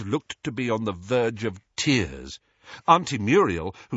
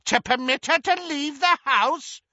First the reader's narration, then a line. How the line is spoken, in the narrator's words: cackled Muriel